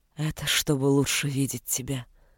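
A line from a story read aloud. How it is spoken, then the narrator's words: Hoarse whisper. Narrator (Russian): хрипло шепнул Володар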